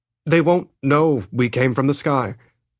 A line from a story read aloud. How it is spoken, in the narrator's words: Eric said, his voice quavering slightly